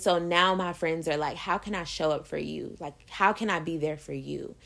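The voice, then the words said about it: Emotional, choked-up voice. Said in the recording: “it makes me emotional. um, sorry, I'm getting emotional talking about it”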